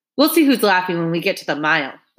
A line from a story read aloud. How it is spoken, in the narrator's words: barked